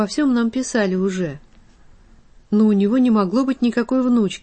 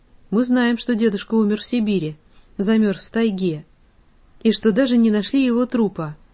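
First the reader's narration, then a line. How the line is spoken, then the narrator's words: Boy, dry. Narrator (Russian): произнес сухо мальчик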